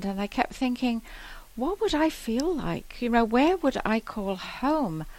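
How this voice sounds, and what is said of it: English accent. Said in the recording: “you probably know from my accent, I'm from England”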